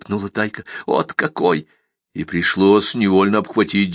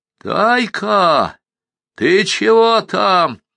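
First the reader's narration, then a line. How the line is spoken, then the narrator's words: Sudden nearby shout. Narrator (Russian): вдруг закричали совсем рядом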